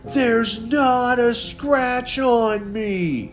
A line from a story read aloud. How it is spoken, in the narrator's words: Gus howled